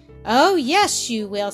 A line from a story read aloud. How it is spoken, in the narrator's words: said cheerfully